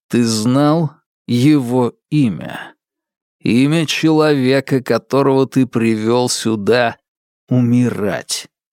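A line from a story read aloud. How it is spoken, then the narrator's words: Rasping wheeze. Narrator (Russian): Тероу захрипел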